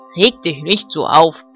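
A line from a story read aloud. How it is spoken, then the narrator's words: Barked by farm dog. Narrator (German): bellte Ben, der Hofhund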